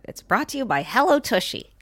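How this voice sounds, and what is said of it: Imitates another person's voice. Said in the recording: “good Sarah impersonation”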